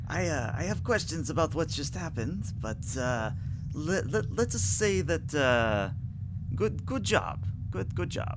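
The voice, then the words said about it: Unidentified put-on accent. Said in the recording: “I still don't know what accent this is”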